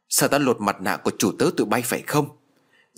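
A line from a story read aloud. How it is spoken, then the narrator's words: Loud shout. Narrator (Vietnamese): Bà lại quát to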